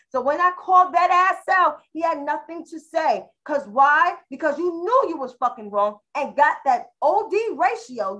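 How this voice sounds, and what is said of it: New York accent with slang. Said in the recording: “my New York slang accent”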